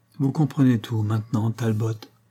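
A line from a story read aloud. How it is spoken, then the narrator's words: Sad. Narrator (French): dit-elle tristement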